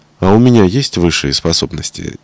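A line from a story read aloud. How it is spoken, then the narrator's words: Quiet question. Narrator (Russian): тихонько спросила я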